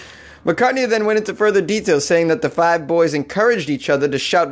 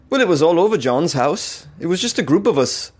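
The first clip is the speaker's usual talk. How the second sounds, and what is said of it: Deliberately poor impression of another's voice. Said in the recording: “I'm going to do a terrible Paul McCartney accent. Impression”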